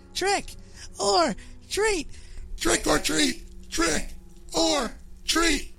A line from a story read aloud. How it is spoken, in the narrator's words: all the while laughing as it killed him and screaming